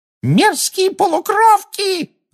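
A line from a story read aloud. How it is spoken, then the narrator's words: Screaming. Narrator (Russian): завопила Амбридж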